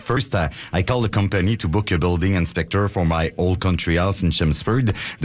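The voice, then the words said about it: French accent in English. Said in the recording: “you're Marcus Schwabi's French friend ... she recognized my accent”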